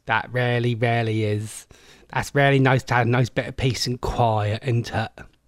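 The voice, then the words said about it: Put-on Norfolk English accent. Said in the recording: “That's a nice Norfolk accent there.”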